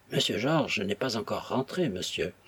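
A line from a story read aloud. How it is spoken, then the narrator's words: Timid objection. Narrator (French): objecta timidement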